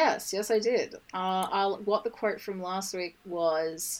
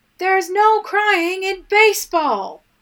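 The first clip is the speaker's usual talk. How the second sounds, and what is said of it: Imitates another person's shouting voice. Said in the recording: “my best Tom Hanks impression ... Tom Hanks in his kind of shouting voice ... his Woody voice, where he's yelling stuff”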